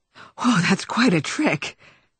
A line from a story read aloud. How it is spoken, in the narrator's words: she gasped